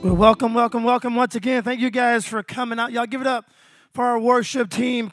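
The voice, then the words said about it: Sore, strained hoarse voice. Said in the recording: “my voice is trying to get away from me... I may yell even more... the reason my voice is so sore”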